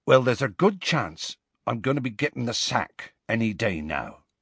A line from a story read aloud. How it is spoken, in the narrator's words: he said